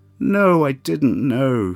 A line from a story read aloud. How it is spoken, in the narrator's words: Felix wailed